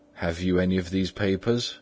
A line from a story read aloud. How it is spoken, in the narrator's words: asked Mr